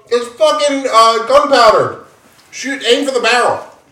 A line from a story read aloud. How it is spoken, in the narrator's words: He yells